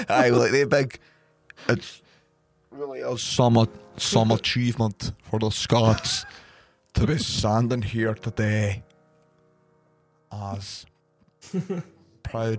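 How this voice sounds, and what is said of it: Put-on Scottish accent, sounds Irish. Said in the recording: “I think it's really Irish. ... I like the way we think that we're good at accents.”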